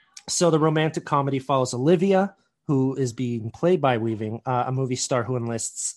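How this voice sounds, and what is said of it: Usual voice. Nothing is said of it.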